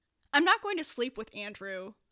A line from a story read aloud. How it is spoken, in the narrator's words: Neil said, loudly